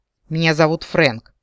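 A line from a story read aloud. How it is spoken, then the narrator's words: Snapping retort. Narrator (Russian): огрызнулся оборотень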